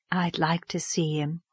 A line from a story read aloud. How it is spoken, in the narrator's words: said Miss Lavendar softly, as if talking to herself